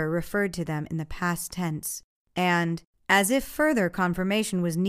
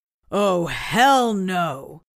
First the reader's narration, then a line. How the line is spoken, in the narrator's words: Franz shouted in defiance